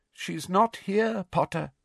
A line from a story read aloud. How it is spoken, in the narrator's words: said Madame Pumphrey sadly